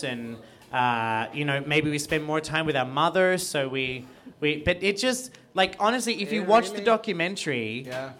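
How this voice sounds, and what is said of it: Australian accent, cartoonish delivery. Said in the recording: “You sound like a Hanna-Barbera cartoon character. ... this accent is made up of gay Australian and Australian who had to sound like a retarded Hanna-Barbera character”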